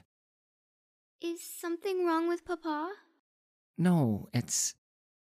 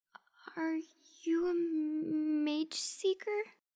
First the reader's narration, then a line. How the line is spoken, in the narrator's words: She asked, her voice quivering